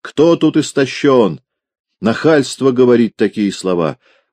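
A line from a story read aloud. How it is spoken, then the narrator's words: Yelling. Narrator (Russian): он заорал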